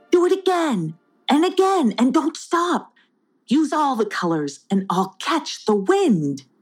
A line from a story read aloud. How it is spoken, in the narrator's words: Neverwait called out